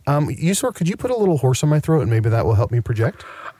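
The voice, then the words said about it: Slightly hoarse voice. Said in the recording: “losing my voice. I sound a little hoarse.”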